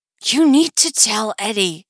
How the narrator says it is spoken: she hisses

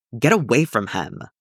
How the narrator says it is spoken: Obi-Wan snapped

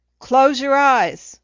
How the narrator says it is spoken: the shouting

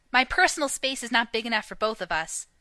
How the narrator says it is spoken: snapped

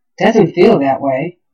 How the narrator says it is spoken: Shepard muttered

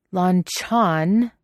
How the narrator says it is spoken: says Wei Wuxian on a low growl

